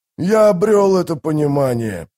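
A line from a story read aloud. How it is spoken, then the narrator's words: Growling warrior. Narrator (Russian): прорычал воин Баргаст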